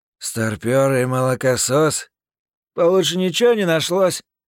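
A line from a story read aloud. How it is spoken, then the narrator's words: Grumbling villain. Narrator (Russian): проворчал злыдень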